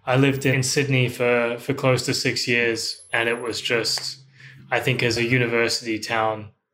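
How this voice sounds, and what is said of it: Australian accent. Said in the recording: “I have the terrible misfortune of having the Australian accent ... I have the Australian accent. I personally don't mind it, but it's just quite a unique accent.”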